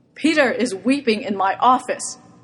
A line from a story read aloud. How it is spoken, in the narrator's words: Mal yells at him